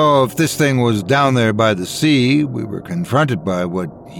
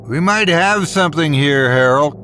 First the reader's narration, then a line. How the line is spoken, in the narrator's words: shouted out bitterly over the sound of the lapping waves